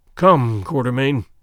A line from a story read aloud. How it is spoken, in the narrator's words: groaned Sir Henry